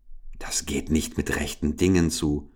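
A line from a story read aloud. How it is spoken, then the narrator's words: Whispered. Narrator (German): flüsterte Richard zuerst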